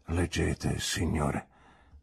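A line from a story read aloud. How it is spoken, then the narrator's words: Low trembling voice. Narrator (Italian): disse con una voce bassa, tremante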